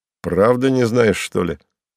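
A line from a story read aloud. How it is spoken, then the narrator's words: Satisfied snort. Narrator (Russian): он хмыкнул довольно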